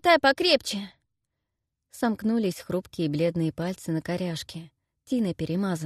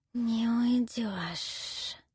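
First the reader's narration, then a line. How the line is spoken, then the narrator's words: Hissed right in ear. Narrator (Russian): зашипела прямо в ухо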